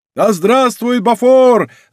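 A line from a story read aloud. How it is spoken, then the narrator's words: Crowd of guards shouting. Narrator (Russian): закричали все караульные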